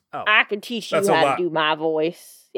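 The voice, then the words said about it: Imitates another person's voice. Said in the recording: “I probably could have done a better impression ... Oh, that was good ... It's perfect. It's perfect ... Nailed it. Out of the fucking park.”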